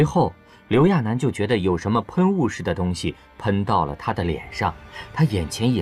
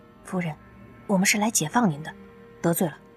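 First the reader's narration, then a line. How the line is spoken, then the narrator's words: Hushed explaining. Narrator (Chinese): 妹子们压低了声音对他解释道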